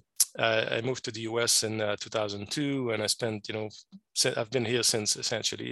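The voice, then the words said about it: French Canadian accent in English. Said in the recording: “I'm a French Canadian. I'm originally from Quebec ... my funny accent”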